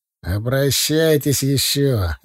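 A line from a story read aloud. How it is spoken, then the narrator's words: Pleased voice. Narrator (Russian): ответил довольным голосом Сатчан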